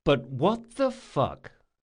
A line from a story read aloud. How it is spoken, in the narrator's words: he said slowly